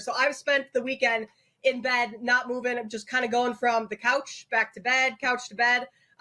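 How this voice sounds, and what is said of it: Sick, under-the-weather voice. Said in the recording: “I don't know if you can tell by my voice, a little bit under the weather.”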